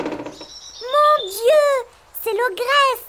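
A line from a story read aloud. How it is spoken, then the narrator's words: Exclaimed. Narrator (French): s'écrie Petit Poucet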